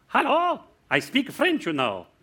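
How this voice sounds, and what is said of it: Attempted French accent. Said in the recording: “I don't know if this accent is properly French, but I'm going to give it a go. Actually, I'm South African.”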